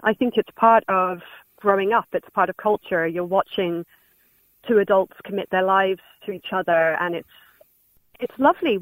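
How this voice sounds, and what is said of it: English accent. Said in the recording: “I do detect an English accent”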